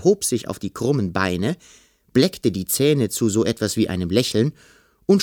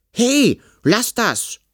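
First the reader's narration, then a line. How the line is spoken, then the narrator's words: Indignant call. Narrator (German): rief Kalli empört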